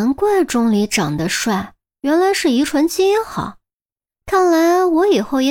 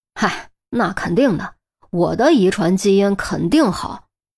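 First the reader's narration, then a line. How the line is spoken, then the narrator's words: Muttering to oneself. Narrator (Chinese): 韩淼喃喃自语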